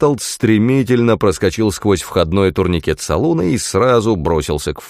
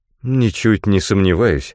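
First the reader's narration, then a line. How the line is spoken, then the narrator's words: Bewildered reply. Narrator (Russian): растерянно откликнулся Бартолд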